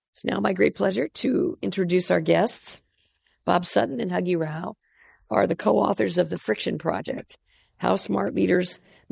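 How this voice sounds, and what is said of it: Impaired, strained speaking voice. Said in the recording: “I apologize for my voice, but I'll carry on.”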